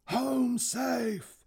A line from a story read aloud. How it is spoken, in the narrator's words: He screamed